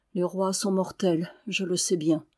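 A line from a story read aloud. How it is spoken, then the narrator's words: Added very quietly. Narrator (French): Il ajouta tout bas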